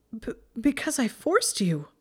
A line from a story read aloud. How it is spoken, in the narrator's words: Hermione stammered with a growing sense of horror